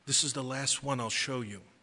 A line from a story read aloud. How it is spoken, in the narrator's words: the angel whispered and said